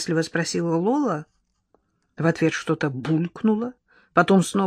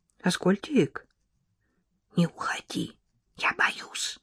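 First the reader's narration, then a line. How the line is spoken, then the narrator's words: Whisper. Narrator (Russian): прошептала Лола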